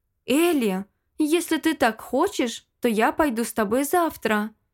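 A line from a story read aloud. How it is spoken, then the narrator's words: Excited exclamation. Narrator (Russian): воскликнула дочь герцога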